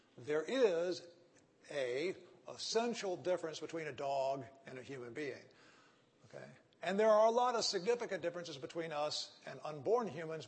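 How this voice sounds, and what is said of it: Texan accent. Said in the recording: “I have a Texan accent, so I have trouble with the articles, like an. My A-N sounds like a N”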